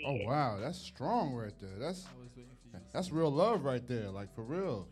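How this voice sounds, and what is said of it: New York accent. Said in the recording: “that's my New York accent.”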